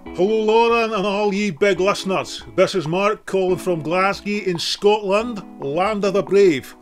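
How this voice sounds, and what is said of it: Scottish accent, speaking very slowly. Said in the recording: “I hope you can all understand my accent. I know you had to subtitle Trainspotting, so I'm talking very slowly”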